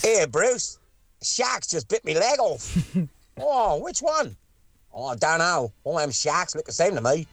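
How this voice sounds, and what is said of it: Put-on Australian accent. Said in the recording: “That's not a bad Australian accent... It's a good accent”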